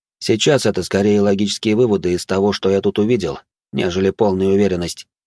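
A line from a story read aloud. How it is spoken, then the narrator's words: Calm. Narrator (Russian): добавил я, спокойно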